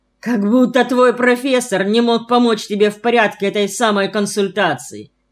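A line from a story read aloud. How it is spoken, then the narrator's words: Caustic retort, then laughing. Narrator (Russian): едко возразил Глеб и захохотал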